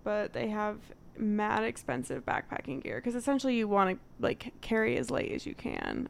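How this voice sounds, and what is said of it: Connecticut accent, dropped T's. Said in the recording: “I have a Connecticut accent, so I hope you understand what I mean when I say tent. ... We don't pronounce our T's.”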